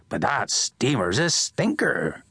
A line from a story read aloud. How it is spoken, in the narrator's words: he croaked